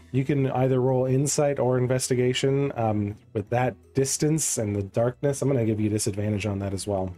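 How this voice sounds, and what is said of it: Congested voice with sniffles. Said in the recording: “I do apologize for the sniffles today. ... I've got a bit of a cold, so any sniffling and throat clearing”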